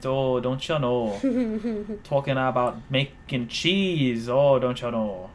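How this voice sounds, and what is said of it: Put-on Midwestern accent. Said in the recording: “talking in your Midwestern accent”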